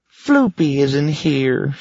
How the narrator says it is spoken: she moaned

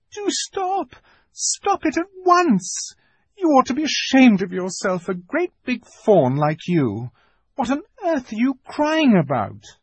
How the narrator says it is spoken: bawled Lucy in his ear

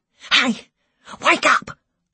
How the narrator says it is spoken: I hissed in Wayne's ear

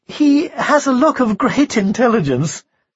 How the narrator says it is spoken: she said a little shakily

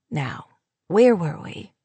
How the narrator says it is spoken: Luke murmured

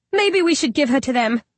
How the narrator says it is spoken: Vicky Wedge squeaks

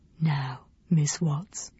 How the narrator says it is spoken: whispered

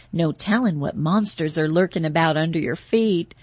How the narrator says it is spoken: Shauna laughed

